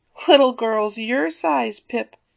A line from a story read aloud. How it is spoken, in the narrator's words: Ben had laughingly insisted